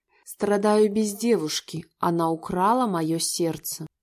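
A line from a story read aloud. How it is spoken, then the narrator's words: Excited whisper. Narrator (Russian): Шептал настолько волнительно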